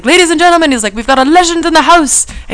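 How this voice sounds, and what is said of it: Botched attempt at Irish accent. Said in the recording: “he was from Ireland ... Again, with the wrong accent. ... You shouldn't be doing impressions.”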